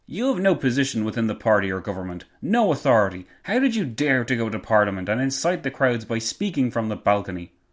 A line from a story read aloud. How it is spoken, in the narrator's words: Garrow replied angrily